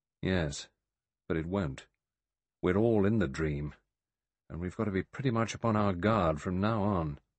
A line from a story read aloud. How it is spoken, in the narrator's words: Philip Lombard said gravely